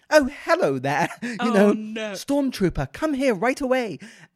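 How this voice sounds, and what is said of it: Comical, unmenacing British voice. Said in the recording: “this really tall British actor ... his accent, he just didn't sound menacing at all ... people found it comical”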